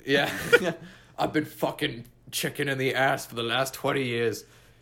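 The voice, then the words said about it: Put-on British accent. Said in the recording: “a British accent out of you”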